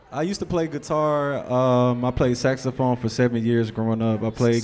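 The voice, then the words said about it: Southern US accent. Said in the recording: “I'm from Memphis, Tennessee. I'm a ... Southern boy. ... Excuse ... the ... accent.”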